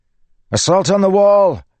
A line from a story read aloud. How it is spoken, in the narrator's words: Kaladin shouted